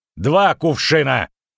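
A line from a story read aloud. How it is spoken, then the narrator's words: Barking roar. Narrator (Russian): рявкнул Стригалки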